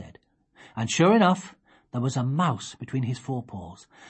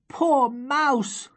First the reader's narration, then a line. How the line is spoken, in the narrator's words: Sophie cried